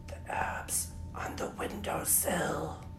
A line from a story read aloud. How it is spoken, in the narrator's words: whispered